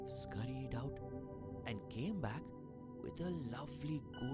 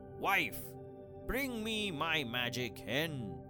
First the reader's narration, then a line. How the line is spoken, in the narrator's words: he shouted